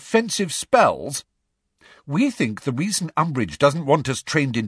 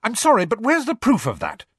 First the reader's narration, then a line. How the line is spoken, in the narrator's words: snapped Hermione